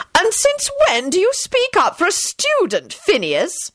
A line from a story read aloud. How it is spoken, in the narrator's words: she demanded sharply